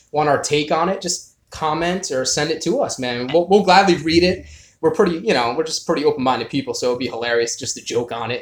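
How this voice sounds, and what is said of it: Strong Northeastern US accent. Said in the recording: “we're from the Northeast, man. We got that hardcore accent.”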